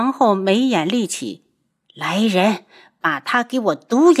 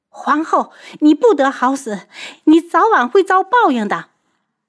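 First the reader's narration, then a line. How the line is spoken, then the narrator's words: Desperate scream. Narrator (Chinese): 香儿绝望了，她拼命地叫起来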